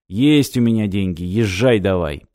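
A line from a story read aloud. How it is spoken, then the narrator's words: Grumble. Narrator (Russian): проворчал Пестрецов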